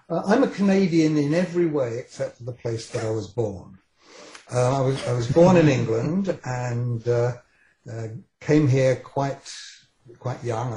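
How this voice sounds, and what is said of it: British accent. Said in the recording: “The only two things that I have that are still British is my accent, which I'm kind of stuck with”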